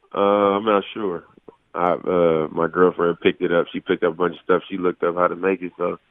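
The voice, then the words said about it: Sick, congested-sounding voice. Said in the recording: “I'm still sick right now. Probably can hear it in my voice”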